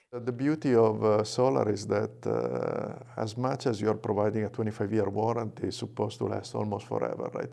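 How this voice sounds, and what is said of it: Italian accent. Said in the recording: “The Italian accent also helps.”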